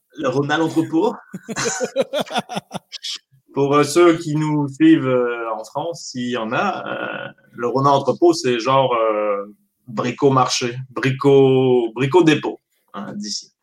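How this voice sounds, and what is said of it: French accent. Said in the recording (French): “l'accent français”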